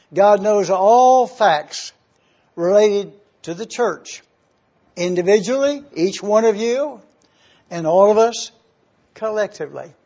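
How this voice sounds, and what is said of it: Very slow, deliberate speech. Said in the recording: “saying this so slowly”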